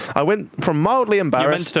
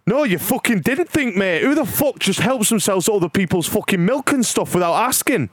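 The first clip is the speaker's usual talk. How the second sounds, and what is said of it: Put-on northern English accent. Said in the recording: “You meant to do it in a northern accent.”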